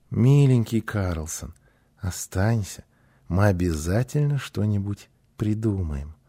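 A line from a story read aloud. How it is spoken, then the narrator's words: Joyful gentle plea. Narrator (Russian): Гунила с радостью ласково попросила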